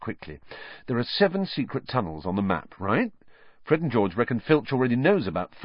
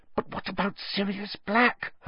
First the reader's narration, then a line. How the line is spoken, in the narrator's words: Hermione hissed